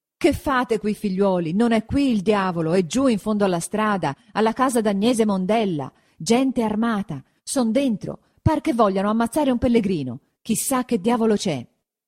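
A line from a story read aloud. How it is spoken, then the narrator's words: Shouting after catching breath. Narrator (Italian): Quando ebbe ripreso fiato, gridò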